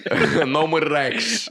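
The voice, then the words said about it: Put-on New York accent. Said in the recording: “said in a New York accent.”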